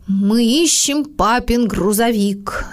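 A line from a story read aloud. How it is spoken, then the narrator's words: Solemn reply. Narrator (Russian): торжественно ответил Мартин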